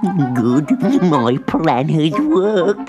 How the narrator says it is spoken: cackled

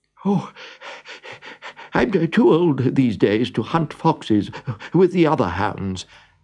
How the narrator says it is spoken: panted the dog

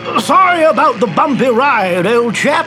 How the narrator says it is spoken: he yelled

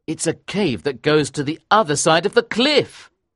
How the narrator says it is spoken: cried

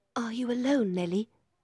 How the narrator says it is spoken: Miss Cathy whispered

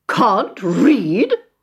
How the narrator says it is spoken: spluttered Miss Rottenmeier

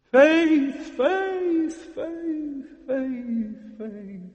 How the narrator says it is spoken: The cries of anger and terror

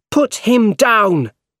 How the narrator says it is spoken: He shouted

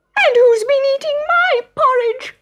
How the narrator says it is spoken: squealed Baby Bear

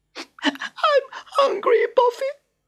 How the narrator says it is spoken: she wailed

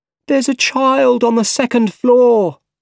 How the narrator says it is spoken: someone cried

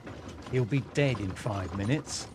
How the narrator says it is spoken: Barsad explained quietly

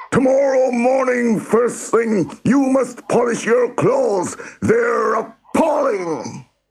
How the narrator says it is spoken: he screamed

